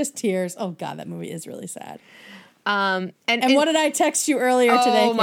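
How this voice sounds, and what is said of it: Usual voice. Nothing is said of it.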